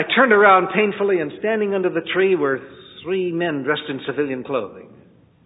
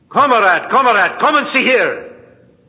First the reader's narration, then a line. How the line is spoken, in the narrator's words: I heard a voice shouting